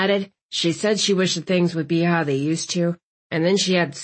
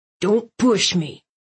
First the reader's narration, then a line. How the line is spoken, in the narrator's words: Chief Terry hissed